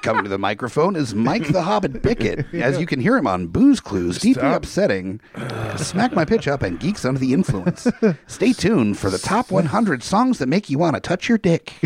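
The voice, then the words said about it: Casey Kasem radio announcer impression. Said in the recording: “his best Casey Kasem”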